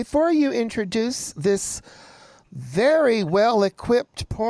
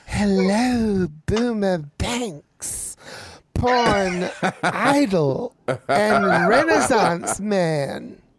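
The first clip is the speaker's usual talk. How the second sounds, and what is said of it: Put-on sultry sexy voice. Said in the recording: “I want to make sure I get my sexy voice on”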